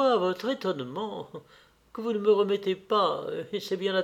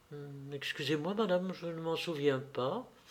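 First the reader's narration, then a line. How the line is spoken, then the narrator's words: Girl murmuring. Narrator (French): murmura la jeune fille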